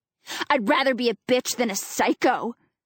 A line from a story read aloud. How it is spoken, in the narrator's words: she snarls